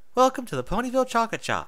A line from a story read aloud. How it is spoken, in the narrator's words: Twilight chirped, a wide smile on her face